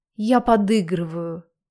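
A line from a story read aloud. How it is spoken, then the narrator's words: Indistinct relaxed babble. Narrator (Russian): Пролепетала я невнятно, полностью расслабляясь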